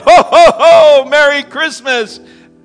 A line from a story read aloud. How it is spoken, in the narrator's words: yelled